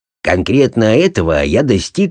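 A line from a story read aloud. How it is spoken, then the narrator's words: Plain. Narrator (Russian): сказал мой друг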